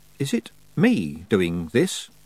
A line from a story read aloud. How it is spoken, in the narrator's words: asked Tiffany nervously